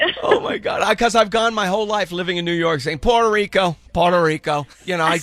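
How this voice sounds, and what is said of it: Usual voice. Nothing is said of it.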